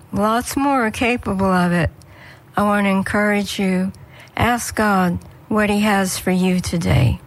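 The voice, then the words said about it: Slightly rough, hoarse voice. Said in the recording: “My voice is getting a little rough here.”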